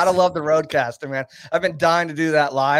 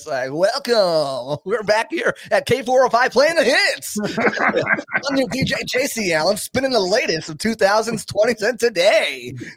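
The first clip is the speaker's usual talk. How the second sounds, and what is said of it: Radio DJ announcer voice. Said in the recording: “It's like my radio voice”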